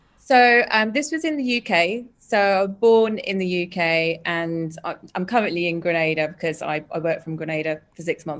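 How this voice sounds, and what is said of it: Speaks with a noticeable accent. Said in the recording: “I can hear an accent.”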